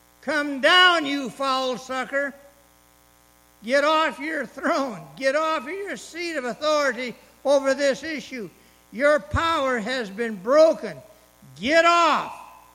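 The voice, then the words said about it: Loud shouting delivery. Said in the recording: “I'm shouting”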